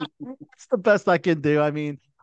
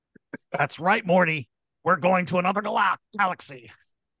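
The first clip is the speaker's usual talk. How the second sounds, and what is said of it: Impression of a cartoon character's voice. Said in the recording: “the new voice ... my impression's not bad either”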